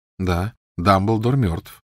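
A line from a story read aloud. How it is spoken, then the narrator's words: Calm reply. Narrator (Russian): спокойно откликнулся Гарри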